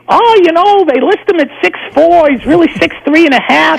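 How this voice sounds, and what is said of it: High-pitched New England impression of Ken Beatrice. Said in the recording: “Ken Beatrice ... he had a New England accent, he's high-pitched”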